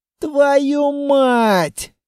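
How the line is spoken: Breathed out. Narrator (Russian): выдохнул

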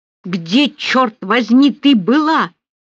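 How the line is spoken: Roaring. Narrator (Russian): взревел Рауль

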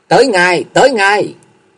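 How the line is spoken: Called out loudly. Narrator (Vietnamese): nghe tiếng quát dội lên tiếng

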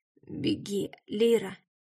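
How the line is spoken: Dying father's hoarse rasp. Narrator (Russian): прохрипел отец, и это были его последние слова

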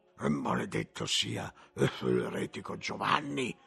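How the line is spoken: Grumble. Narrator (Italian): sentì brontolare Gerolamo di Caffa

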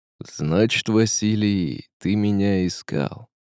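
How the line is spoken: Well-trained resonant voice. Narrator (Russian): спросил Казимир хорошо поставленным голосом

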